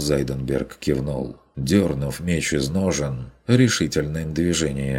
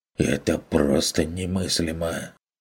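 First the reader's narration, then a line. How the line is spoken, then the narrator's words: Melancholy muttering. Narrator (Russian): пробормотал торговец с тоской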